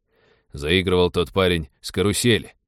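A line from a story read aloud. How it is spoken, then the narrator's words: Displeased grumble. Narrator (Russian): буркнул пилот, которому внимание бандита к девушке очень не понравилось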